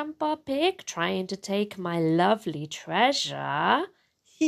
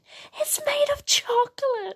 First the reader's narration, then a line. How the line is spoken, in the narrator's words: she gasps